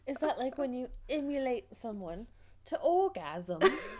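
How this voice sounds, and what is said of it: Bad put-on Essex accent. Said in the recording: “that was the worst Essex accent I've ever done.”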